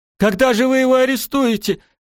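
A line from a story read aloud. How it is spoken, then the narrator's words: Shouted. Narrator (Russian): закричал Шем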